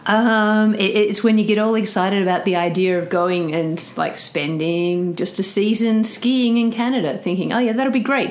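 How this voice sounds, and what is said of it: Australian accent. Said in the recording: “she has a tremendous accent ... Australia to Canmore”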